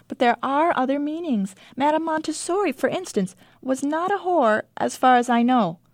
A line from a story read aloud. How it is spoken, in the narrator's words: I say cheerfully